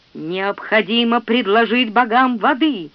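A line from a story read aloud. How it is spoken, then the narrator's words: Booming, thunderous. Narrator (Russian): прогремел младший песнопевец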